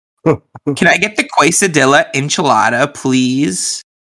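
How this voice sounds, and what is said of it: Imitates a sorority girl voice. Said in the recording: “a sorority girl ordering tacos at, like, a Mexican restaurant.”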